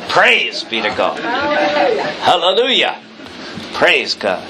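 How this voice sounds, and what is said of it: Loud projecting preacher voice. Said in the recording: “put on my Methodist voice ... speak as if you're talking to the lady in the back row who is hard of hearing”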